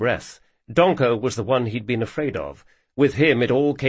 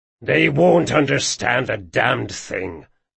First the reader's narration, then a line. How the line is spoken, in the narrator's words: growled Bert